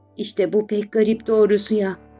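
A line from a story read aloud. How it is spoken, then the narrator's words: Murmuring. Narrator (Turkish): diye mırıldandı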